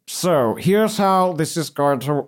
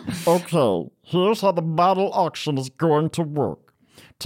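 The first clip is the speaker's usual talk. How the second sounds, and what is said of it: Distinct character voice. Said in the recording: “Let me try and do that voice so it's a little different from Blavin.”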